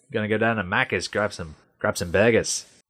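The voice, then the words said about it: Attempted Australian accent. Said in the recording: “That was probably the wrong accent”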